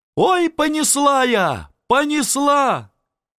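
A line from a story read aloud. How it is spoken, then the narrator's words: Yelling. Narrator (Russian): Царевна Прасковья Волочиножку, вдова генерала Дмитриева Мамонова, заорала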